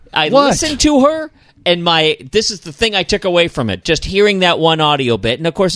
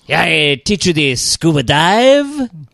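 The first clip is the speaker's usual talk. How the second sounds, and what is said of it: Put-on French accent. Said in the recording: “French girl from Saint-Barth. That was more like the candle guy from ... Beauty and the Beast.”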